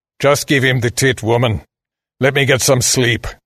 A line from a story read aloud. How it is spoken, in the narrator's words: the man growled